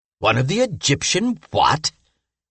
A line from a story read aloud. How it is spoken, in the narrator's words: exclaimed the mummy